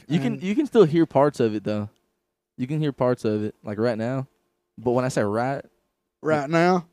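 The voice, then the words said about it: Slight Southern US accent, Canadian traces. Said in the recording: “I got the country accent ... You did develop a southern accent, dude ... Southern, yep ... I didn't have a southern accent whatsoever when I first ... So Canadian ... It's a Canadian. It's a Canuck”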